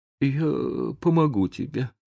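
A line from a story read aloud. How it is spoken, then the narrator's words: Trembling mutter. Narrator (Russian): пробормотал Том дрожащим голосом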